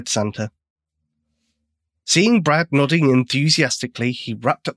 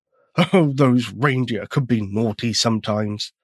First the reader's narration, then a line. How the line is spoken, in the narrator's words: chuckled Santa